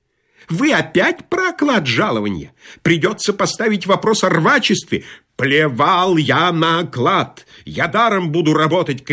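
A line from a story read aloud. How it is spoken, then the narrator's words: Agitated shouting. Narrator (Russian): кричал инженер, взволнованно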